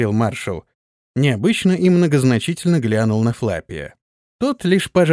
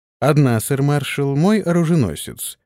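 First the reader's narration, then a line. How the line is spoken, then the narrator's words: Calm reply. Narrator (Russian): спокойно ответил Антон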